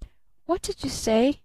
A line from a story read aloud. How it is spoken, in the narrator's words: muttered little Eve Edgerton